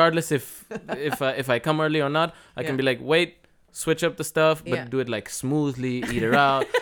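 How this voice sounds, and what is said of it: Usual voice. Nothing is said of it.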